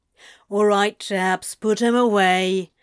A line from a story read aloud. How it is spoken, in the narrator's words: Crowley grumbled